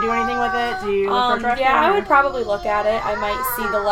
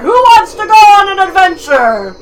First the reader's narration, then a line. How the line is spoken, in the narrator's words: you very loudly hear